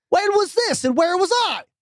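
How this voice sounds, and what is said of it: Loud, upset yelling. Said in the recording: “I'm yelling, everybody. I'm very upset at this right now.”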